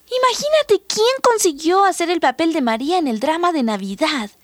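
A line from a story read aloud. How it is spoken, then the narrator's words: Ironic exclamation. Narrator (Spanish): exclamó irónicamente Sonia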